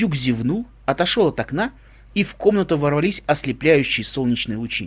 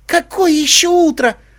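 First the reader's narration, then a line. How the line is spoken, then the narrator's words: Shrill squeal. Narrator (Russian): взвизгнул единорог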